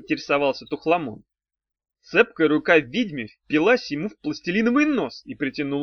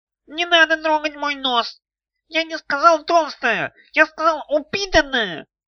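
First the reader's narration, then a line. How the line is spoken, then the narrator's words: Nasal whine. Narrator (Russian): прогнусавил комиссионер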